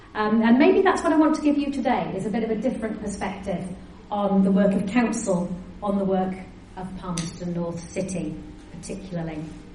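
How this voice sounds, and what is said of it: Northeast English accent. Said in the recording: “you might have gathered from my accent that I am not from round these parts originally ... I still sound like I've just flown in from the northeast of England”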